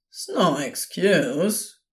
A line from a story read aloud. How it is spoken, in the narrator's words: Crowley said, clearly ready to go back to grumbling